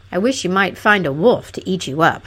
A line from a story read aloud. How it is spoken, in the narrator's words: growled Fanfaronade